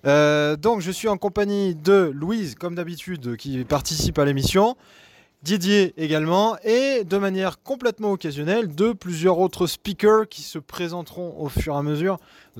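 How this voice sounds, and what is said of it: Very strong regional French accent. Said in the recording (French): “Vous avez vu mon accent, il est juste euh, énorme”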